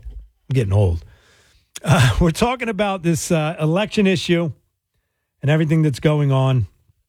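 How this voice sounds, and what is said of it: Hoarse, failing voice. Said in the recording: “my voice seems to be a little hoarse. It's going right now”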